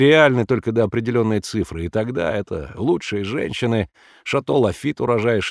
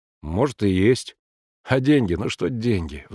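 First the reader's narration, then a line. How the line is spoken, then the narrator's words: Sighing. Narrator (Russian): вздохнул Сергей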